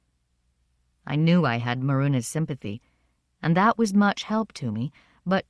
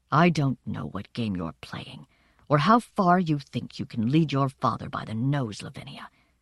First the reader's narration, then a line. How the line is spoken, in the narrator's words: she said in a low, harsh voice